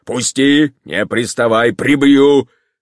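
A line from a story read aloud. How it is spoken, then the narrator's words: Shout. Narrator (Russian): крикнул он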